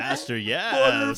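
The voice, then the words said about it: Exaggerated sexy character voice. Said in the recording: “sexy voice”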